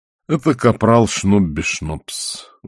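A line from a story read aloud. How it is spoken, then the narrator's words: Tired. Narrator (Russian): устало сказал он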